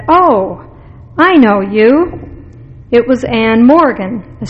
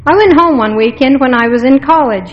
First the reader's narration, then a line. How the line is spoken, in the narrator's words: he said